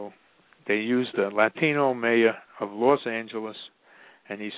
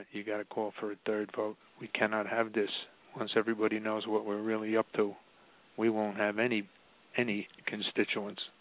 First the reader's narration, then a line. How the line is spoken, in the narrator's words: the guy whispered in his ear